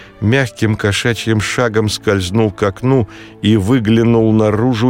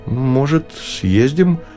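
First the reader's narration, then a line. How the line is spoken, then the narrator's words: Uncertain. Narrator (Russian): неуверенно сказал Ева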